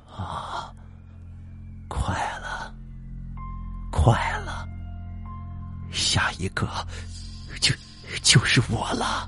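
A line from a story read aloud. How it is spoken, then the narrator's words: Muttering to himself. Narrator (Chinese): 四爷自言自语了，他喃喃的说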